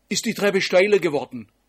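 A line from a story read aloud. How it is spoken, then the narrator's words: Calling upward. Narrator (German): rief sie zu Simon hoch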